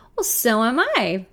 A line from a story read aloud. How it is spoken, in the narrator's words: laughs